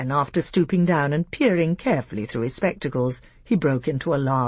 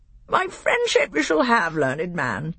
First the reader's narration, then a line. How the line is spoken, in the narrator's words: piped Reepy Cheep